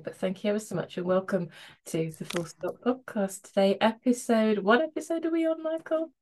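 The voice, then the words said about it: Slightly croaky voice. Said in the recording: “my voice is a bit kind of croaky this morning”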